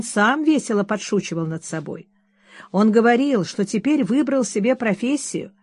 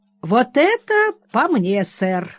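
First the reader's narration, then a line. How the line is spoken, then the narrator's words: Exclaiming. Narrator (Russian): воскликнул Ричард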